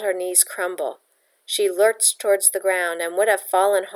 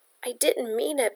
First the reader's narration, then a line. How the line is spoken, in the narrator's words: Bella whimpered